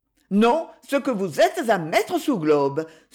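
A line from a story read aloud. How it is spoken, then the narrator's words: Exclaimed. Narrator (French): s'exclama enfin Edmé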